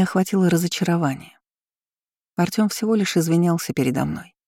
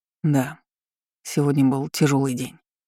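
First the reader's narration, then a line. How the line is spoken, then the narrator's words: Muffled, hollow voice. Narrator (Russian): глухо произнёс Данилов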